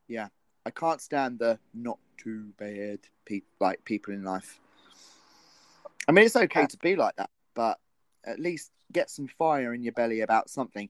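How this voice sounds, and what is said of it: Northern English accent, northwest. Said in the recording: “2 British accents, especially one that is a northern accent. I'm guessing northwest ... I'm from the northwest”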